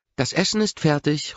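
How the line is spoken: Calling across hall. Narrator (German): ruft Grace durch die Vorhalle

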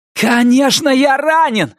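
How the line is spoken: Yelling. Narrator (Russian): заорал Норрис

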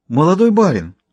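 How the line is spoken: Exclaiming old cook. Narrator (Russian): воскликнула седая кухарка

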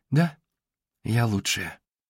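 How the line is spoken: Muttered. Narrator (Russian): пробормотала она

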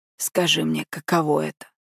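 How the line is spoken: Enthralled hoarse voice. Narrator (Russian): Хрипит, заворожённый

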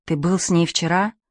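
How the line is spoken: Barely audible question. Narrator (Russian): спрашивает Пьеро чуть слышно

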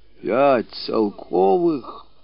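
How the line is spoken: Amazed whisper. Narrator (Russian): Изумленно прошептал Петр Васильевич

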